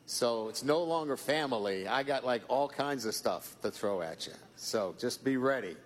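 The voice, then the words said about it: Mixed Boston, Midwestern, Southern accent. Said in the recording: “his famed Southern accent ... I have a Boston, Midwestern, Louisiana accent now ... it's three dialects into one”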